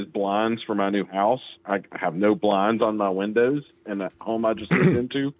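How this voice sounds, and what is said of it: Strong regional accent. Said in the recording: “Quite the accent you got there.”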